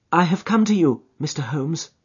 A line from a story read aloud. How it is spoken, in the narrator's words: she said